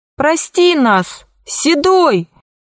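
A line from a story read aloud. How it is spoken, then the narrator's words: Mother shouting loudest. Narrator (Russian): громче всех кричала мама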